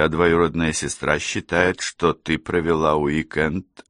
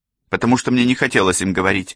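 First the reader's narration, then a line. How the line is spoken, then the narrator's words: Sharp. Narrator (Russian): резко ответила она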